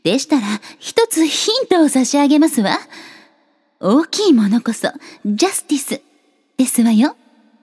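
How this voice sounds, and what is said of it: Imitates an anime character's voice. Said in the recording (Japanese): “誰のモノマネか ... 正解はグリーンハート様でした”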